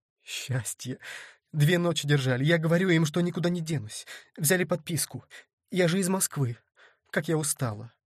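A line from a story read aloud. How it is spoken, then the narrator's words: Rapid chatter. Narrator (Russian): затараторила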